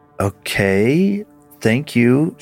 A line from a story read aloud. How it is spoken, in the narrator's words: she replied, an uncomfortable feeling settling in with her